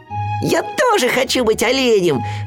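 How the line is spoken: Shouting. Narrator (Russian): закричал Ру

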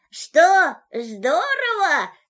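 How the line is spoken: Shouted from high above. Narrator (Russian): крикнул ему из поднебесья Винни-Пух

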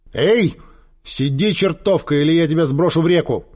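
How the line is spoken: Shouting at an animal. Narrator (Russian): закричала она на привязанную к кустам козу

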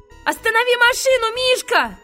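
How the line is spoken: Shouting. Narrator (Russian): закричал

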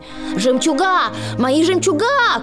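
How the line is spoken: Shout. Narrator (Russian): крикнула Анастасия

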